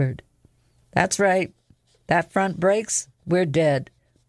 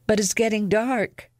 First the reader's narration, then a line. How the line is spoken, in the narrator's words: Lexa said, her voice shaking